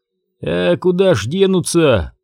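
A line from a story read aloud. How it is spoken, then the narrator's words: Grumbling. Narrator (Russian): проворчал Дик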